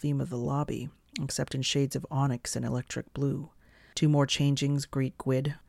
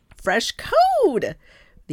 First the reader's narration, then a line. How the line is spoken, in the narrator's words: the anginid squeals